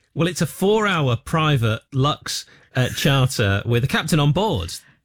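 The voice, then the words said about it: Northern English accent. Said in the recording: “you're sort of saying luxury in a northern accent ... Well, I'm northern.”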